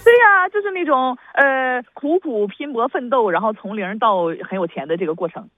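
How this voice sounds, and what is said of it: Strong Northeastern Chinese accent. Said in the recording (Chinese): “北味怎么这么重呢？...把你的东北味稍微收一收”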